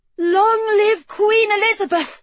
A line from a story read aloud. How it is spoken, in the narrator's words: she called out, her voice small but strong